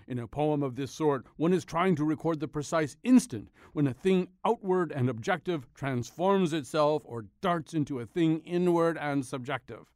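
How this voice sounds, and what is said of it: Imitates another person's voice. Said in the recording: “my Ezra Pound impersonation. People say it's uncanny.”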